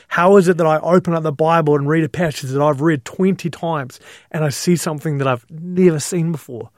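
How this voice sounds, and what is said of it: Emotional voice. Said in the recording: “you can probably hear it in my voice and getting a little bit emotional”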